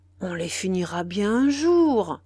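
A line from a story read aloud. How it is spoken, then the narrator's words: Exclamation. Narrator (French): s'écria Pierre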